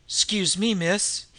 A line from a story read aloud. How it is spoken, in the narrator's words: he said uneasily